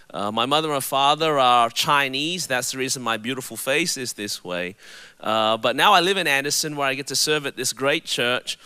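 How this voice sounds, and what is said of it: Australian accent. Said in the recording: “my voice is a little bit different. It's because I was born and raised in Melbourne, Australia.”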